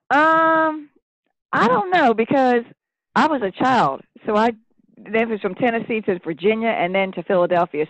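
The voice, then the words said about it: Southern Tennessee accent. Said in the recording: “I love your accent ... From Tennessee”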